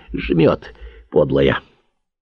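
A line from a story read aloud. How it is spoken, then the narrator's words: Muttering. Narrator (Russian): Пробормотал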